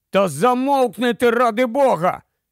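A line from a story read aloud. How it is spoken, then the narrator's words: Shout. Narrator (Ukrainian): закричав Ларсен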